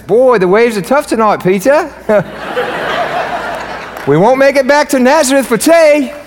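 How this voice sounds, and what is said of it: Attempted British accent, sounds Australian. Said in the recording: “Oh, no, for the British accents ... If you're British out there, that was not British. That was Australian ... I turn every accent into like Hispanic accent”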